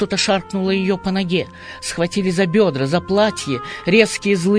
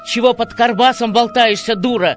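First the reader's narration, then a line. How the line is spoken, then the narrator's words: Happy shout right in ear. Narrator (Russian): Счастливо заорал он ей в самое ухо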